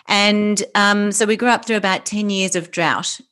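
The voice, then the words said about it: Australian English accent. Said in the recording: “I'm Australian, obviously, you can tell by my accent”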